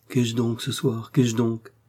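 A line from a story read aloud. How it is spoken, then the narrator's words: Murmured. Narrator (French): murmura-t-elle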